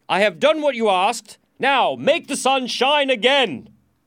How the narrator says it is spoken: shouted the king impatiently

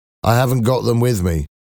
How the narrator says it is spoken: Jean answered

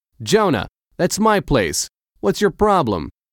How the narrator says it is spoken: Eric shouted

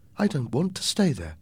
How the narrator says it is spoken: my mother said

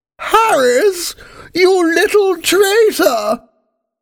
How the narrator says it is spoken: screamed the Queen

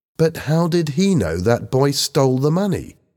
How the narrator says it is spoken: Helen asked

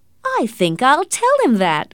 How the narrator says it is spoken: cried Marian delightedly

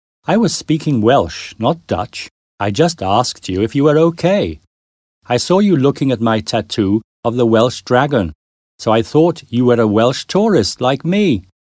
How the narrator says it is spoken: The man laughed and said

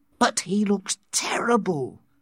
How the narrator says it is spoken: Lenina whispered

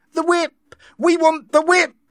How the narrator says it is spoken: the crowd shouted

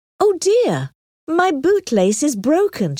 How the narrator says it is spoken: exclaimed

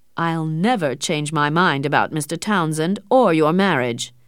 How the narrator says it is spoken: her father said coldly

